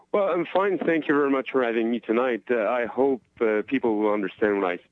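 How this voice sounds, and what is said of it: Accent different from the hosts'. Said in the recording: “We don't have the same accent, definitely. ... No, no, we don't. ... Everybody has a different accent than us.”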